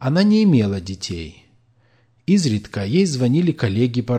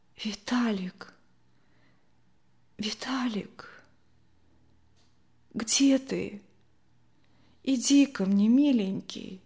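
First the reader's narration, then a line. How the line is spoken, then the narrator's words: Barely audible whisper. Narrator (Russian): Ей казалось, что она громко кричит, однако с ее губ слетал едва слышный шепот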